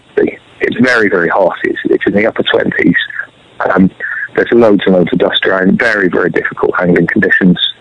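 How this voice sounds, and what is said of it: Slightly sore strained voice. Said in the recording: “my voice is a bit sore”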